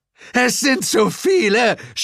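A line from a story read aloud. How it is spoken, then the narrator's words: Shouting. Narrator (German): schrie Zuko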